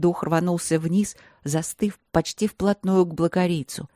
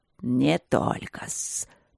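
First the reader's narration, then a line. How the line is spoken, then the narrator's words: Hiss. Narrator (Russian): прошипел дух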